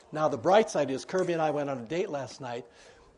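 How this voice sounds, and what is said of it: Hoarse, failing voice. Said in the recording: “I just am losing my voice.”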